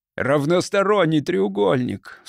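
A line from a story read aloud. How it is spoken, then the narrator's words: Sobbing. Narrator (Russian): всхлипнул Дэвид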